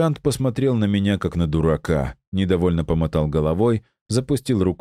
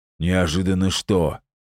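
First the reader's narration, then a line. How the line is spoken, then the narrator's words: Rude mutant's question. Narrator (Russian): грубо спросил мутант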